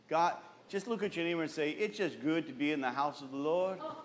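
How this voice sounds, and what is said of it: Sudden put-on accent. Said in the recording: “I don't know where that accent came from”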